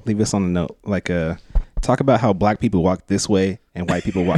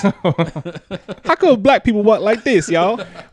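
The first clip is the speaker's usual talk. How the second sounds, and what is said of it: Put-on stereotyped voice. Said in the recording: “do it in a black guy's voice ... Is that your black guy impression? ... That's your impression of a white guy doing a black guy impression.”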